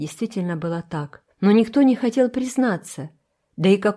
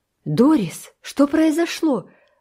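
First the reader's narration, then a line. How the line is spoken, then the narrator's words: Exclamation. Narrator (Russian): воскликнула мама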